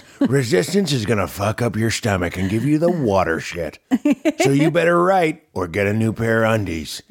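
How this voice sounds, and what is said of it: Imitates another person's voice. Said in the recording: “that's an so excellent good. Impression. ... this is such a good impression.”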